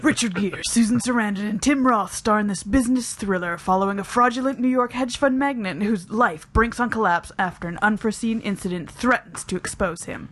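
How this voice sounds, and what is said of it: Dramatic movie-trailer narrator voice. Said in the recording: “in my trailer voice”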